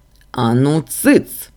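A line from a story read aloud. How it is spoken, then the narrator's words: Barked. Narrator (Russian): рявкнул Лоран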